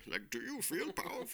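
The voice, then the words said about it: Tom Hardy as Bane impression. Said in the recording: “I'm secretly Tom Hardy. ... That was a really great impersonation.”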